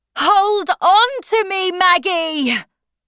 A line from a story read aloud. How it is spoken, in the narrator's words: He shouted